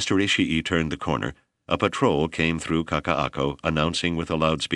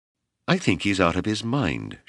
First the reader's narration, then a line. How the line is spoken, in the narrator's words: Shigeo said sadly